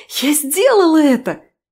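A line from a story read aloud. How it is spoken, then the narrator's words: Shouted exclamation. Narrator (Russian): выкрикнула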